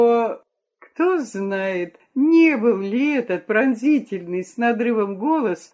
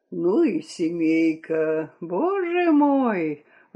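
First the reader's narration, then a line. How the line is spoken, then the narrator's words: Sigh from below. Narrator (Russian): вздохнул кто-то из сидящих внизу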